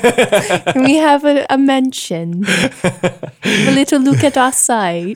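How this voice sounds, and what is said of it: Imitates another person's accent. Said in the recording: “I really hope that wasn't supposed to be my accent there ... Very, very good. It was like hearing myself.”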